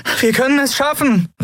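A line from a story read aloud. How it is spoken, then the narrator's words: Shouting over beeping. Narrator (German): rief sie über das ewige Piepsen des Kubus hinweg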